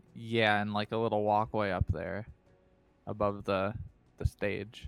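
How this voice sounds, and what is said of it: Usual voice. Nothing is said of it.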